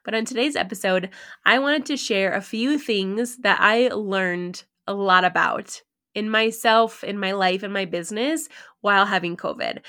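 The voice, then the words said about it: Raspier voice than normal. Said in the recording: “My voice is obviously a little bit raspier than normal”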